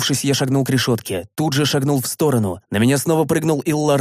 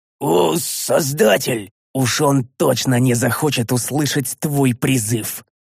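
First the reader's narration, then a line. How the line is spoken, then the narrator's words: Growled. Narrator (Russian): прорычал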